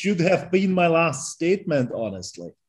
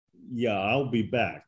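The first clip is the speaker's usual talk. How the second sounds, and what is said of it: Imitates the Terminator movie voice. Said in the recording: “I love your accent ... I just want to hear you say, I'll be back ... He sounded just like the Terminator.”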